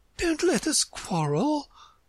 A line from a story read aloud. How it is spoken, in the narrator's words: the White Queen said in an anxious tone